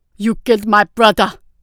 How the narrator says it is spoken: He snarled

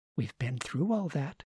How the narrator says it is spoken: she said gently

